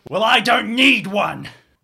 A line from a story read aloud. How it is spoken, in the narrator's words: he's going to shout